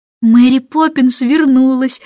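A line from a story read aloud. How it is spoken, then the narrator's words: Joyful, into phone. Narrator (Russian): радостно сообщила она в трубку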